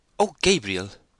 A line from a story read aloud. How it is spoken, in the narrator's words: she exclaimed with severe remonstrance